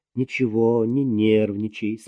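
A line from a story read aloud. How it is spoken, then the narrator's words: Calm. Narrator (Russian): спокойно сказала ... Марина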